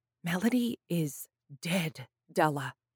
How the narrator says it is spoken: whispered

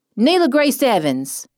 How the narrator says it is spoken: yelled

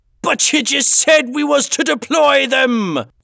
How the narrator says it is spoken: yelled Calico Jack over the shrieking howls of the wind

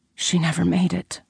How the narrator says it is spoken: whispered, emotion bubbling to the surface again

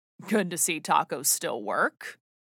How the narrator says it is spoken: said, chuckling

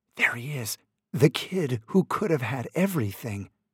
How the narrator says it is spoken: some who still whispered

